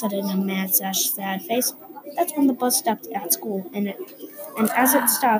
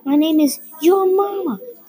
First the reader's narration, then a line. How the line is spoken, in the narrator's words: she screamed